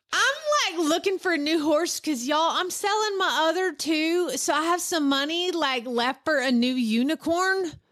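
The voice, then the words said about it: Southern teenage girl voice. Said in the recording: “read in a teenage girl voice ... you gotta do a teen voice, you gotta do a Southern teen girl voice ... I was born as a Southern teen”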